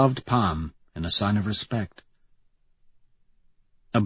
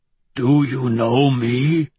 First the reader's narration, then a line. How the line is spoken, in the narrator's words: Ragnar rasps, a tentative smile on quivering lips